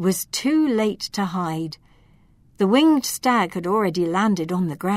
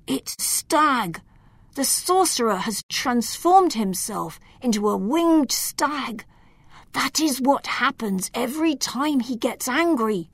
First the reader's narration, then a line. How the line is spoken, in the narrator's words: Loriano whispered